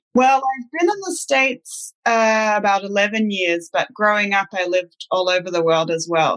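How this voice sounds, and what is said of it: Mixed international accent. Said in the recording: “I can detect a really mixed accent there... It's a truly international accent, a little bit of everything”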